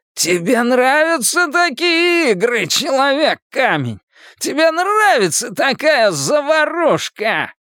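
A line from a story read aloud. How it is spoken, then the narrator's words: Laughing. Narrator (Russian): Патрик Хокстеттер засмеялся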